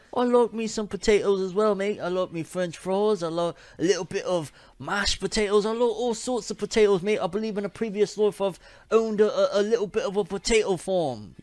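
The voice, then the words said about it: Terrible put-on accent. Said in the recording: “that accent is terrible”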